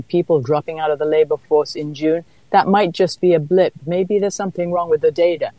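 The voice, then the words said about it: British accent. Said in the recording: “I hear an accent. ... I was born in London”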